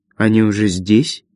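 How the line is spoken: Quiet. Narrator (Russian): негромко сказала она

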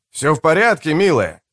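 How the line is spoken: Shouted. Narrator (Russian): крикнул ей кто-то

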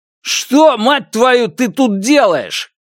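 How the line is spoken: Shouted. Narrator (Russian): крикнул Фуччи

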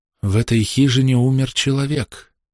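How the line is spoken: Plain. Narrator (Russian): сказала миссис Уэлдон

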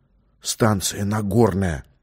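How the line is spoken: Whisper. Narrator (Russian): перешел на шепот тот

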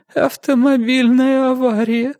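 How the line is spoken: Sobbing. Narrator (Russian): всхлипнула Эленор

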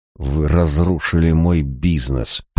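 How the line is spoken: Hissed. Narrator (Russian): прошипел он

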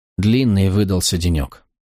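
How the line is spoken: Tired sigh, to herself. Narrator (Russian): Устало вздохнула и прибавила в основном сама себе

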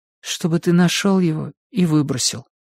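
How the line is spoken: Glum. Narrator (Russian): уныло договорила она

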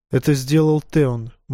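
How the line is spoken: Gloomy. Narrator (Russian): мрачно ответил Бран

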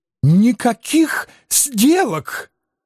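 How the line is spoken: Thin reedy squeak. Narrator (Russian): тонким петушиным голоском пропищал Анцифер

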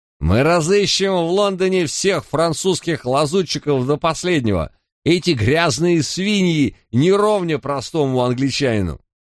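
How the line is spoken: Sudden drunken shout, muffled. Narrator (Russian): За перегородкой один из разгулявшихся юнцов вдруг выкрикнул

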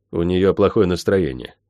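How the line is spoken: Dry, curt. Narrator (Russian): сухо бросил я

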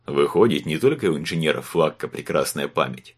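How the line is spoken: Chuckling. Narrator (Russian): хохотнул усатый

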